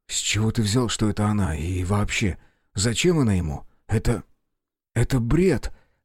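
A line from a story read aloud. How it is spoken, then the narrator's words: Confused. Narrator (Russian): растерянно сказал Белый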